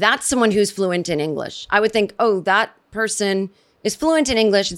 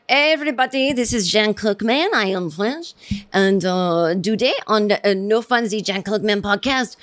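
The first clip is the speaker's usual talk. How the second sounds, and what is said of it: Terrible put-on French accent. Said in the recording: “that's me, you know, doing a terrible accent”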